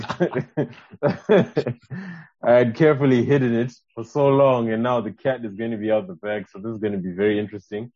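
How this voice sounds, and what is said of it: Canadian accent. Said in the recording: “how, you know, Canadian my accent has become.”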